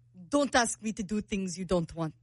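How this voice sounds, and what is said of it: Put-on Russian accent. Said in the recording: “you wanna do your Russian? ... you're the accent expert ... Very good. That's not bad.”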